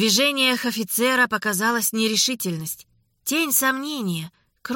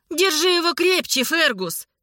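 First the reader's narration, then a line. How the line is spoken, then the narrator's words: Shouted, lady. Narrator (Russian): крикнула леди Элис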